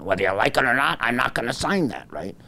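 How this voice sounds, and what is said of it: Bad imitation of a politician. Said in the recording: “my bad Gavin imitation.”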